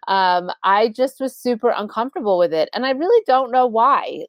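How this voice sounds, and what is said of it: Long Island accent. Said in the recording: “Can you hear my Long Island accent?”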